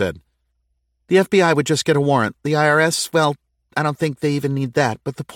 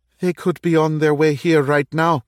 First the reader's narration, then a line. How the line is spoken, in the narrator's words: Kevin said, his voice quavering